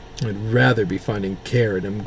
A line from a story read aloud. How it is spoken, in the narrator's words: grumbled Demetrius